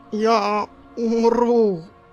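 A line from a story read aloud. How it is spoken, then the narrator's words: Strained through clenched teeth. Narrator (Russian): выдавил он сквозь стиснутые зубы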